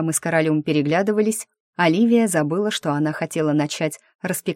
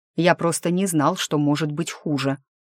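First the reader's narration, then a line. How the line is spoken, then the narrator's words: Grumbled reply. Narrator (Russian): буркнул я в ответ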